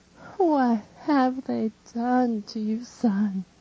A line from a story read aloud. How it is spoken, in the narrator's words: Her lamentation makes me suffer, and when moaning, she says